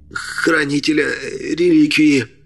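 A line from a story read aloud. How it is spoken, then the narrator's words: Hissing. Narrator (Russian): Прошипел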